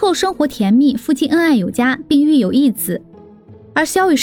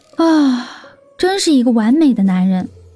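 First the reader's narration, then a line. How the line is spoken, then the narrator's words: Admiring exclamation. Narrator (Chinese): 黎阳再次的赞叹道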